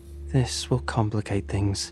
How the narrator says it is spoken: she sighed

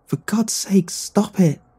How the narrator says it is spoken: Terry yelled

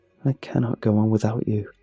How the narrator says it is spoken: Her voice is calm when she says

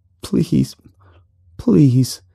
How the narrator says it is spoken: the man whimpered

